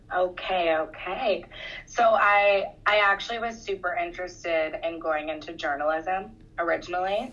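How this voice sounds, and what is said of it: Hoarse, husky voice. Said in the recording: “I woke up with a bit of a sore throat, so don't mind my sexy voice”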